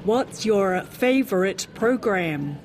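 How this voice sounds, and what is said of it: Put-on American accent. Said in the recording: “You had to try to speak US English. ... That was my best American accent.”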